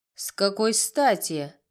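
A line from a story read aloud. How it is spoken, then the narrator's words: Sharp reply. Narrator (Russian): резко ответила дама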